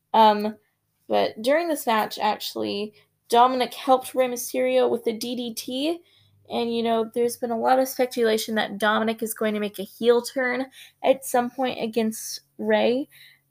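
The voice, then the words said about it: Hoarse, strained voice. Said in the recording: “I'm losing my voice a little bit.”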